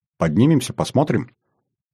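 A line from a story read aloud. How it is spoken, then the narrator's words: Quiet question. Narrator (Russian): Бонита тихо спросила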